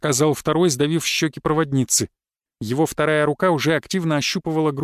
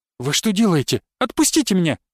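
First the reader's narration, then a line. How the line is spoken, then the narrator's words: Shrill squeal. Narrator (Russian): взвизгнула проводница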